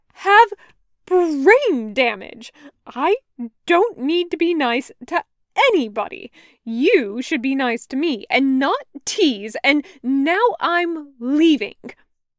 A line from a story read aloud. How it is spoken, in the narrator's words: Taco says haughtily